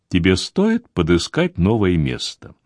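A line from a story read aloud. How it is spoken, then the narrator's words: Soft. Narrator (Russian): патрон мягко продолжил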